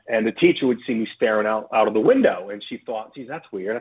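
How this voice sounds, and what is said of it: American accent. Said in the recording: “back in the States, as you could tell from my accent”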